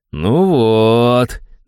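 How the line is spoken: Satisfied drawl. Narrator (Russian): довольно протянул я

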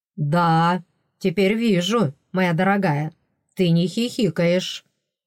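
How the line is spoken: Grim. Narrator (Russian): мрачно подтвердил принц

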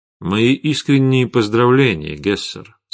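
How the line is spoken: Plain. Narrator (Russian): сказал Витислав

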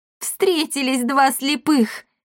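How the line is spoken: Loud laughter. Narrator (Russian): хохотала она

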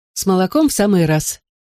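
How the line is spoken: Laughing. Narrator (Russian): Минни снова засмеялась

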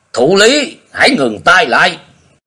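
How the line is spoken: Booming roar. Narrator (Vietnamese): Nhiệt Nhĩ Hầu gầm vang lên

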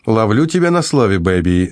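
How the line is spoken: Shout. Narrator (Russian): закричал Вителис

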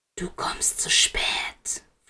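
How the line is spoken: Whispering in ear. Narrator (German): flüsterte Black in sein Ohr

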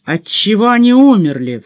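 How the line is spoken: Commanding question. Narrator (Russian): повелительным тоном спросил Маранж

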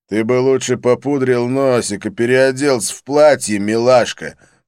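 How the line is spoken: Growled. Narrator (Russian): прорычал Кунг-Кэнон

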